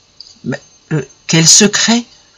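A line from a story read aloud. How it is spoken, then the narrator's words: Stammered. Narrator (French): balbutia Guillaume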